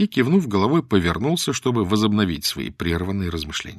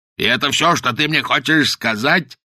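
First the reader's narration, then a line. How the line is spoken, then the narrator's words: Shouting. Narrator (Russian): закричал Каузак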